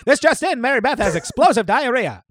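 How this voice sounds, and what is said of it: Old-timey 1920s newsreader voice. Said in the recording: “the impression of my dad is like a someone reading the news in the 20s”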